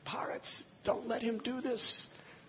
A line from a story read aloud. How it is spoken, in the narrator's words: Kaikeyi was screaming